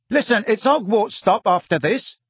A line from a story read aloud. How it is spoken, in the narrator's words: said Stan brightly